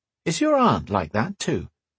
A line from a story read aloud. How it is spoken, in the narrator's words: She laughed